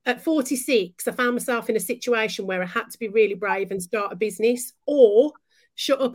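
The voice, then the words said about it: Broad Birmingham (Brummy) accent. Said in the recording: “a really broad Brummy accent”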